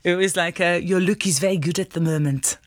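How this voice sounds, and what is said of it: Put-on foreign accent. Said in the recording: “excuse the accent, I'm going to go for it anyway.”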